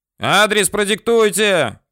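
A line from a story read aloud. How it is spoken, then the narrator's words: Shouting into phone. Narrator (Russian): кричал в трубку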